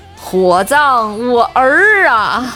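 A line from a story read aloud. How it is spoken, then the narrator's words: Eerie, creepy smile. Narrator (Chinese): 室友诡异地笑了一下，说了一句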